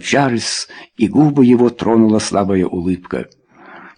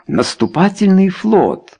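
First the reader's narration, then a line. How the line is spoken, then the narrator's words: Exclamation. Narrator (Russian): воскликнул сэр Энтони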